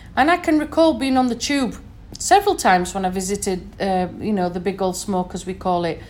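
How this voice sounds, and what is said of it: Northern English accent. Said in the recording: “I'm from the north, as you can probably hear from my accent. I'm from Sheffield originally.”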